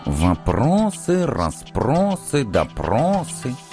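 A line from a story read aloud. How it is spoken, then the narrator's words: Businesslike mutter. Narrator (Russian): деловито пробормотал профессор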